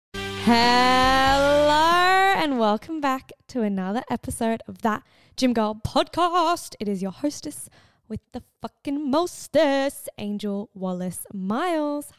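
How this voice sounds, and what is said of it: Croaky, hoarse, partly lost voice. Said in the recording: “I sound like a croaky frog ... I did scream, I did shout, and I have pretty much lost my voice”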